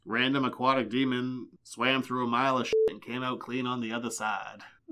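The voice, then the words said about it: Morgan Freeman impression. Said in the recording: “Was that an impression? ... That was Morgan Freeman.”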